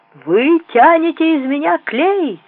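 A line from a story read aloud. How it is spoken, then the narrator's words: Thunderous shout. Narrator (Russian): громовым голосом кричал мой дядька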